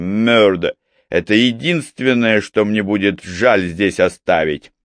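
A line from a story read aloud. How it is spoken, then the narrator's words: Laughing. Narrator (Russian): Тайрор рассмеялся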